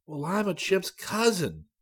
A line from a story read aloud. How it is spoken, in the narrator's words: he exclaimed